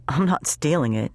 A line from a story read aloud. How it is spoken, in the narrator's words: said in a bored tone